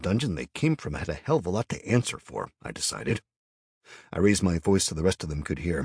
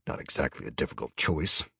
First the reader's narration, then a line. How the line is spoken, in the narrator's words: I grumbled